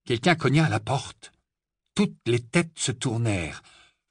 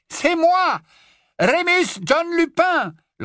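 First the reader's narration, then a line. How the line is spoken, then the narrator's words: Loud voice over wind. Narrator (French): lança une voix qui dominait le hurlement du vent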